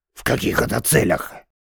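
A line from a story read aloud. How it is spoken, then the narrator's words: Hoarse rasp. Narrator (Russian): прохрипел Файзал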